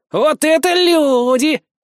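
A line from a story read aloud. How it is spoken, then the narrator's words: Cheerful drawl. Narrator (Russian): протянул тот бодрым голосом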